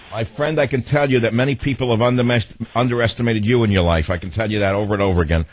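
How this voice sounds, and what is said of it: Heavy New York accent. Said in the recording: “I as a person with a heavy New York accent”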